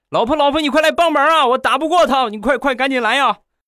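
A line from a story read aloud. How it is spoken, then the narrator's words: Distant desperate shouting. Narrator (Chinese): 就听见他在院里大喊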